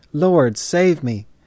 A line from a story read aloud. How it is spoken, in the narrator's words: Peter found that he was actually sinking beneath the waves, he cried